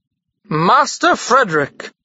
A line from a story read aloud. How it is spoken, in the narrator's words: exclaimed the man